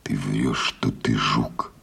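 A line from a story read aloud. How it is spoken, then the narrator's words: Close whisper. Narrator (Russian): произнес Егор шепотом в самое лицо жука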